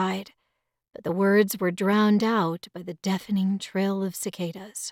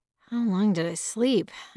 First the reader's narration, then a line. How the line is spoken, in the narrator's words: I muttered